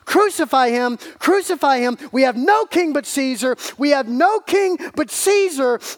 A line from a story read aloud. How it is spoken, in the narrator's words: over and over again, like a broken record, they're crying at the top of their lungs